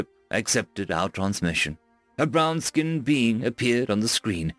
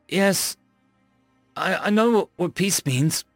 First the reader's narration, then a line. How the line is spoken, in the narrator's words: I stammered